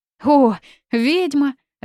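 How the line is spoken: Joyful reply. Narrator (Russian): радостно отозвался он

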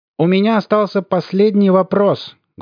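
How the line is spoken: Loud shout to everyone. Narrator (Russian): громко крикнул Хохошуткин, обращаясь ко всем

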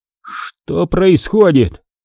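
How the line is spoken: Strained, forced out. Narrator (Russian): наконец выдавил он

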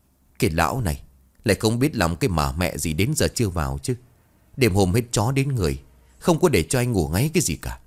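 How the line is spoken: Grumbling mutter. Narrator (Vietnamese): Miệng bà lầm bầm nói

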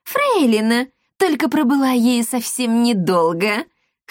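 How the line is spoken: Laughing chuckle. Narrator (Russian): хохотнула девица

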